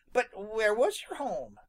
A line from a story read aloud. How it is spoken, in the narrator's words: Peter asked the question eagerly